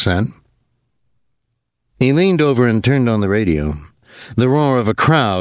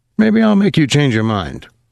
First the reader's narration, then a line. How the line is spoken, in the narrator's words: Rudolph said